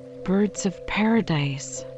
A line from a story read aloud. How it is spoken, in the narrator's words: I exclaimed